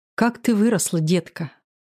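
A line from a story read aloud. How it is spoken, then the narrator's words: Sighing mother. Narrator (Russian): вздохнула мама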